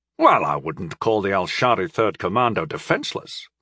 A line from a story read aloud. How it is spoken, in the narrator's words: reminded Count Salgo roughly